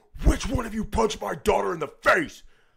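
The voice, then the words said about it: Stern authoritative dad voice. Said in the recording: “using my best dad voice ever”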